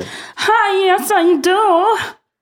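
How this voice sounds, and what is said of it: Exaggerated put-on accent. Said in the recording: “that is quite the accent. ... It's from the bayou? ... That doesn't sound like a bayou accent.”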